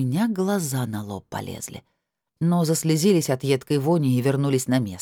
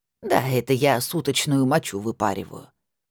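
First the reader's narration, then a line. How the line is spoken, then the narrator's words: Calm old woman. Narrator (Russian): спокойно ответила старушка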